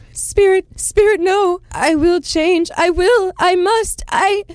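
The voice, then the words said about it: Robotic voice. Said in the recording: “your robot impression”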